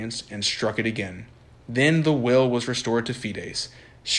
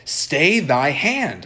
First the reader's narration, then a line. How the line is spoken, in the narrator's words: exclaimed Fides